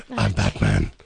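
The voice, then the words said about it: Bad Batman voice impression. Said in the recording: “your bad Batman impersonation”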